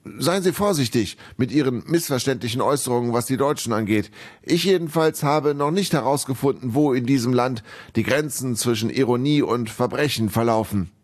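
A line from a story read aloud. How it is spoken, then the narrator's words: Slightly too loud call. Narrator (German): Etwas zu laut rief er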